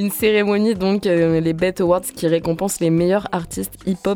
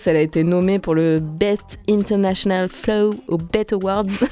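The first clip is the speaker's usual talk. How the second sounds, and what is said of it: Put-on English accent. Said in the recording (French): “mon meilleur accent anglais. C'était parfait”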